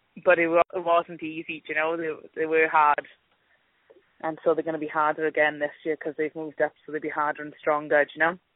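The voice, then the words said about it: Welsh accent. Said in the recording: “she's not a Cavan girl ... from from Wales, I think ... wonderful accent ... great accent”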